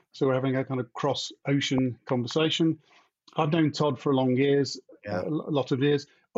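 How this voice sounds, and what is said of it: British English accent. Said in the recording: “From my accent, I'm in the UK, not America.”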